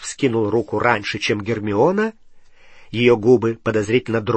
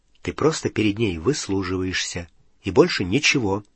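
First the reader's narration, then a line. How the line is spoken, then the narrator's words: Quiet. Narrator (Russian): Гарри тихонько сказал Рону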